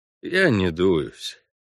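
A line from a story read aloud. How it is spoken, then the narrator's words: Dejected reply. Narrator (Russian): уныло отозвался Парт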